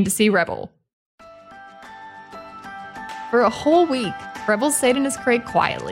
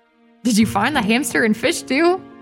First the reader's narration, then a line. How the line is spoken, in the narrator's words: She laughed, much more amused than angry